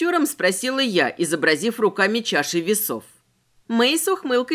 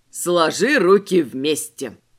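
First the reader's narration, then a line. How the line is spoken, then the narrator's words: Contemptuous snort. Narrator (Russian): девица презрительно фыркнула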